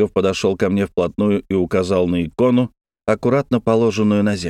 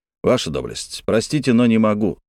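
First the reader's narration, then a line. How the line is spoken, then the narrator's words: Answered dryly. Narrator (Russian): сухо ответил я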